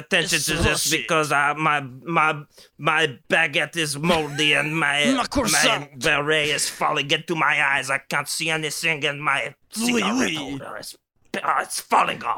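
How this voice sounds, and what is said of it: Put-on foreign accent, well done. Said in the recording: “getting to use your friend's accent, because you were working really hard on it, so you're nailing it ... It's good. It's very good.”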